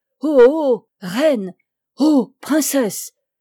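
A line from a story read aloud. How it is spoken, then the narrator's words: Exclamation. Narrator (French): s'écria-t-elle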